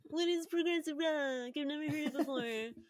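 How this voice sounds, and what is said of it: Odd anxious-sounding voice. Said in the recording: “What is that voice? That was bizarre. ... I guess it's an anxiety voice”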